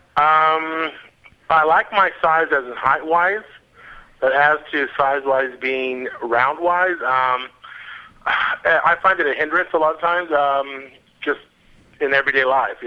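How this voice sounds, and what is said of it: American accent. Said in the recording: “As you can tell, I have an accent. I'm from the States.”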